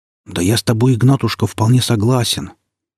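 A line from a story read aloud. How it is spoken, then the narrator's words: Quiet. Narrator (Russian): так же тихо промолвил управляющий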